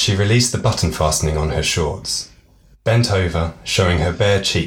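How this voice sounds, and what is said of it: Usual voice. Nothing is said of it.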